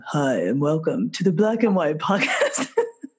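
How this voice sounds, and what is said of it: Deliberately deep low bass voice. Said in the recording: “introduce it in the nice low bass voice that I have”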